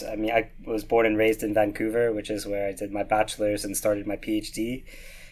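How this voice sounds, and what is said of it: Canadian accent with slight Scottish twang. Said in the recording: “There is a slight Scottish twang to the accent.”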